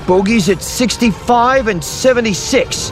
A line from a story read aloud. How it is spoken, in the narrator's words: he called out